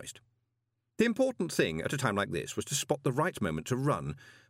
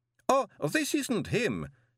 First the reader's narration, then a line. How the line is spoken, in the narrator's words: said the professor cheerfully